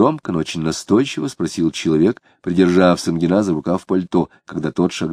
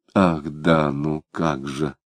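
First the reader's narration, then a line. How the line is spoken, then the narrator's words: Muttered. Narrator (Russian): пробормотал Самгин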